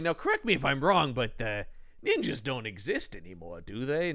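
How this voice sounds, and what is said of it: Columbo-style detective character voice. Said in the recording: “he's just turned into Columbo in my impression”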